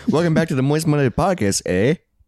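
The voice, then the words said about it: Put-on Canadian accent. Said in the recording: “I'm trying to do like a Canadian accent, eh?”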